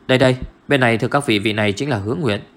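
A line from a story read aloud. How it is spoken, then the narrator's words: Raised voice, announcing. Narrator (Vietnamese): Trung Ái Hòa cao giọng giới thiệu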